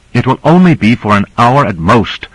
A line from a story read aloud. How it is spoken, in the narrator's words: said Cora angrily